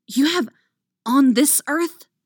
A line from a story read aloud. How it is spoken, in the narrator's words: hisses